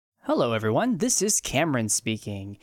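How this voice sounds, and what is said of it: Announcer voice. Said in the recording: “in my announcer voice”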